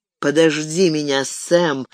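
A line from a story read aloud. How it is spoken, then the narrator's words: Numb-lipped mumble. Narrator (Russian): непослушными губами пробормотал он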